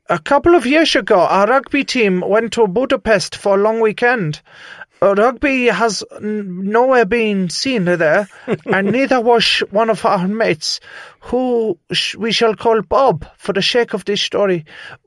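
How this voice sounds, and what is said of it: Bad put-on Dutch accent. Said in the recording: “my bad accent ... this is the best Dutch that I can do”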